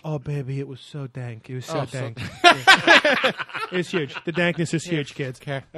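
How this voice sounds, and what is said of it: Imitates another person's voice. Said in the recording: “That's my Trump impression. ... That was almost Woody Allen.”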